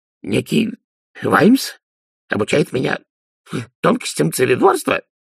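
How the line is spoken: Miserable babbling. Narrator (Russian): пролепетал несчастный Ди

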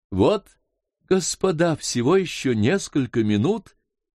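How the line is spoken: Loud, almost cheerful. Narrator (Russian): громким, почти веселым голосом сказал он

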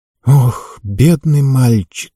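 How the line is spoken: Sighing. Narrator (Russian): вздохнула Кора

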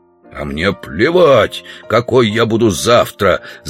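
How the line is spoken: Growling. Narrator (Russian): зарычал Удалов

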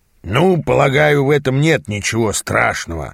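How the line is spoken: Grumbling mutter. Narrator (Russian): пробурчал он наконец

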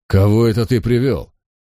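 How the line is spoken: Angry bark. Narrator (Russian): он рявкнул на Моргана

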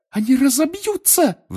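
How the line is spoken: Shrill shriek. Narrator (Russian): взвизгнула Гермиона

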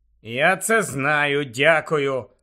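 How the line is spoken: Grumbled. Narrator (Ukrainian): буркнув Гаррі

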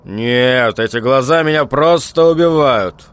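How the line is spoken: Laughing, pleased. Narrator (Russian): Человек хохотнул, видимо, в ответ на нечто приятное

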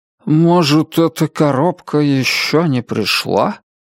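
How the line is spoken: Uncertain muttering. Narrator (Russian): неуверенно пробормотал мистер Гонт

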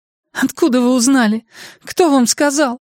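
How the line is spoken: Rising voice into plaintive sobs. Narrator (Russian): Ее голос, повысившись, перешел в жалобные всхлипывания

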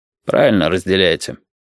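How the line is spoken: Unexpectedly dry, after pause. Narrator (Russian): сказал Тодин после паузы, неожиданно сухо

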